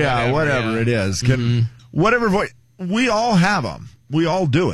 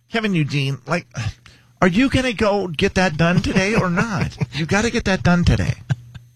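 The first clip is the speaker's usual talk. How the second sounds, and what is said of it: Exaggerated nagging mom voice. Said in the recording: “What's your mom voice sound like”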